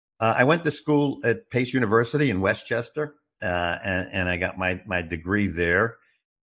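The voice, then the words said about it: Brooklyn New York accent. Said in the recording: “I got my informal education on the streets of Brooklyn, New York. ... I knew that wasn't an Arizona accent. ... it's hard to lose the accent.”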